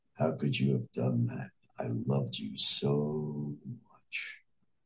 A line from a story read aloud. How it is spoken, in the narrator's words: The person whispered in his ear